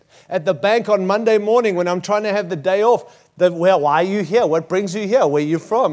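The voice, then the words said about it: Australian accent. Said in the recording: “I've got an accent. I've got an accent everywhere I go because I don't know what accent I have... you're from Australia... They love Aussies.”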